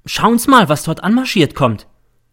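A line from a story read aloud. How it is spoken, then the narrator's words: Sudden call. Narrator (German): ruft plötzlich der M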